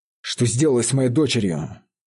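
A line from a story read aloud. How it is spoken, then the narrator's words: Firm, reproachful. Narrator (Russian): спросил он твердым, укоряющим тоном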